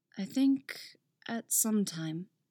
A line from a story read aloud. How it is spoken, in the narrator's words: Paula says softly and with care